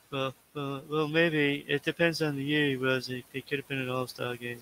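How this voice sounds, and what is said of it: Imitates another person's voice. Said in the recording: “my David Price impression ... That was very good, though.”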